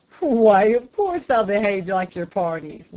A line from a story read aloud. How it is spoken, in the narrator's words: laughed the lay reader